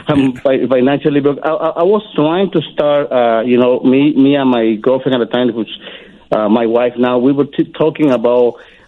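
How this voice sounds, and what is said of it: Heavy foreign accent. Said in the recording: “my heavy accent”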